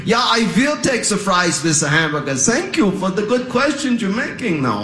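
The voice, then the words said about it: Put-on German accent. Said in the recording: “This is a German accent ... This is my German accent ... I am not bilingual, but I can sound bilingual ... Now I use my accent to impress random strangers”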